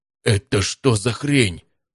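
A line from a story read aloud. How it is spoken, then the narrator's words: Horrified gasp. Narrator (Russian): С ужасом выдохнул позади меня Матвей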